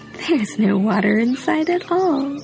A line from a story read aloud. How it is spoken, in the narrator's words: Stone Monkey laughed